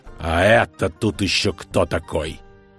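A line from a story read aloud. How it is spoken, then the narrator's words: Barking. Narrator (Russian): рявкнула она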